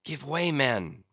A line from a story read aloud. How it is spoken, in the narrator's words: whispered Starbuck